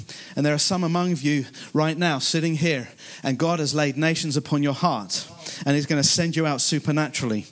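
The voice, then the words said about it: Speaks with a noticeable foreign accent. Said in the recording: “as you can gather by my accent ... I'm very conscious of my accent”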